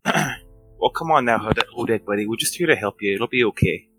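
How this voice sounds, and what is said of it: Calm, soothing Midwestern accent. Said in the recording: “the calming, dulcet tones of a Midwestern accent”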